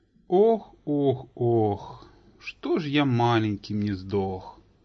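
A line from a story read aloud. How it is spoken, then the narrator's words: Sighing. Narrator (Russian): Вздохнул Олег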